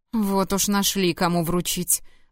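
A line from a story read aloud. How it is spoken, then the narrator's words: Groaning. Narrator (Russian): простонал Луда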